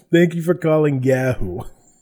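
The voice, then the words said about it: Thick New York accent. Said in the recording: “The thickest, like, I don't know, a New York, I guess, accent.”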